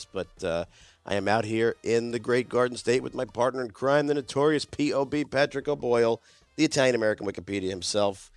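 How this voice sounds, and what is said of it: Hoarse, gravelly voice. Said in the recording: “doing my best impression of Wolfman Jack today. You got to forgive my laryngitis”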